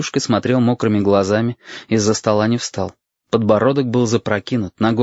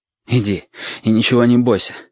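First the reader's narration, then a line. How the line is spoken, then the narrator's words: Breathed out. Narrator (Russian): выдохнул Валентин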